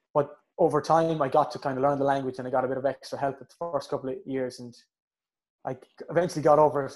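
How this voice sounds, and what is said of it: Thick Irish Mayo accent. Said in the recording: “Now I have a thick Mayo accent, I'm told many a time.”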